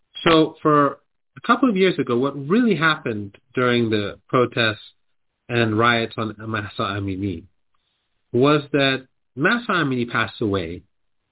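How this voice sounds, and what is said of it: Cold-affected voice, holding back cough. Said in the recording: “I want to cough... my voice is, I'm trying not to cough... I caught a cold or something”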